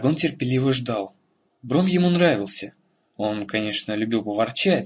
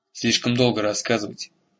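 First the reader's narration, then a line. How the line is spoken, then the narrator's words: Grumbling. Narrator (Russian): проворчал Бром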